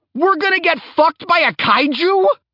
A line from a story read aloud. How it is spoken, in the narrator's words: Kahurangi yelled